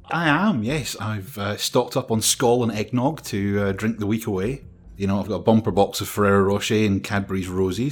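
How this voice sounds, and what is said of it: Glaswegian Scottish accent. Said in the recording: “I recognise that voice and accent. Hey, Glasgow”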